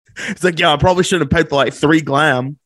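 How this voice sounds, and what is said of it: Put-on Australian accent. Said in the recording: “I am sick over your accent right now. That is so good. ... he'll have to go back to Australia at some point if he wants to keep that accent ... That was so good.”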